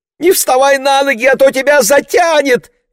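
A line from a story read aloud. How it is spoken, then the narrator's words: Shrieking. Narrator (Russian): визжала Марго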